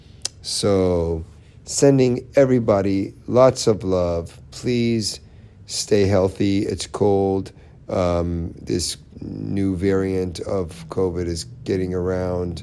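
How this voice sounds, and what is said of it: Slightly raspy voice. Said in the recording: “my voice a little raspy right now ... my end of the day voice”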